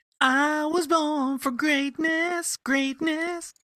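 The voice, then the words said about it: Sings in falsetto. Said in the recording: “That was a good little falsetto, too”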